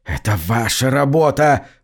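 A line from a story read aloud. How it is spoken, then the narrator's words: Hoarse rasp. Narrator (Russian): прохрипел он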